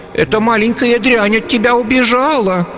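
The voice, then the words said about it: Mocking wailing imitation of a woman. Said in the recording (Russian): “передразнивая ее, запричитал”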